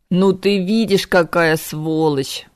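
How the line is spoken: Groaning in pain. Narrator (Russian): простонал Кайден, все еще баюкая пострадавшую руку

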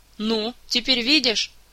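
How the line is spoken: Irritated shout. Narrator (Russian): раздраженно выкрикнула Кира

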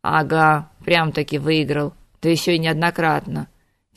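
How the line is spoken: Philosophical grunt, fat man. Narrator (Russian): философски хмыкнул толстяк

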